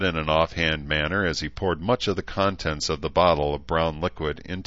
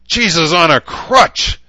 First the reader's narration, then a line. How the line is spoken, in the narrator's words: Harry yelled